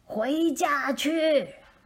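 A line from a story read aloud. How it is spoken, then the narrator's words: Loud call to dog. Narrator (Chinese): 她对小狗大声说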